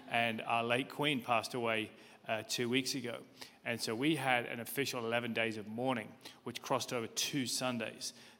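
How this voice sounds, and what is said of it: British accent. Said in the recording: “as you can probably tell from my accent. I'm from the UK”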